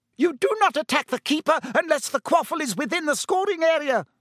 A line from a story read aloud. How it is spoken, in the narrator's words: she shrieked at Bowl and Derek